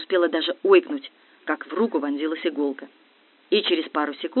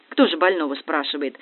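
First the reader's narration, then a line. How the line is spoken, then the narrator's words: Wry snort. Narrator (Russian): хмыкнул Дегтярев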